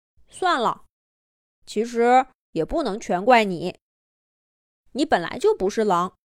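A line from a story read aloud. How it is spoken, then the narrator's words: Calm, with a sigh. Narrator (Chinese): 威廉，叹了口气，平静的说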